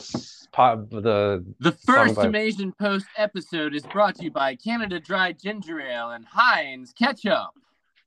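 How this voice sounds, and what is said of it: Polished radio announcer voice. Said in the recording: “you have a great radio voice”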